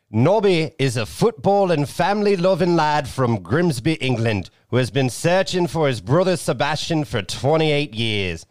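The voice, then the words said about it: Put-on accent. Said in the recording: “I'm going to do it with the accent.”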